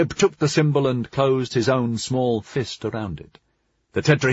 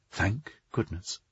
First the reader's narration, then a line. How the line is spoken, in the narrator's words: Under her breath, Julius thought she muttered